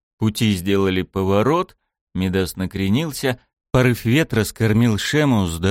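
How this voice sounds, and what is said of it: Usual voice. Nothing is said of it.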